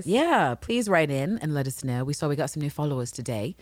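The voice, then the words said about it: Sudden English accent. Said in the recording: “English accent popped out”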